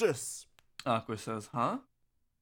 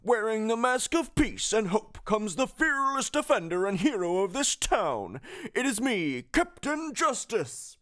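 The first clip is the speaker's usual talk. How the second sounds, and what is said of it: Cursed cartoonish voice of Pete. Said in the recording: “the cursed voice”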